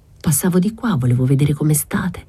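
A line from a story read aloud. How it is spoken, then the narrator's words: Plain reply. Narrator (Italian): rispose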